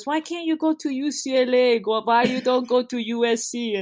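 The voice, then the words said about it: Poorly done put-on Persian accent. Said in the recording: “sounds Russian, but he's not. ... that was a really bad Persian accent”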